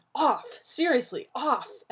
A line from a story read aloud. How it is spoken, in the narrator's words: he yelped